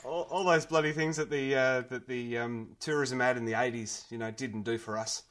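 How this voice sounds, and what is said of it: Australian accent. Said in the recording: “Hello from Australia... we might need subtitles for my accent... An Australian.”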